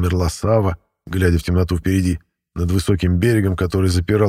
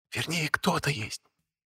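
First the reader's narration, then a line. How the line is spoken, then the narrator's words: Whisper. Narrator (Russian): шепнулась Аналея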